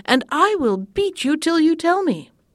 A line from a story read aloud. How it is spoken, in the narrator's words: cried